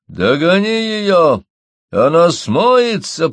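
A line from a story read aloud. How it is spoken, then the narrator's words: Shouted. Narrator (Russian): прокричал Мои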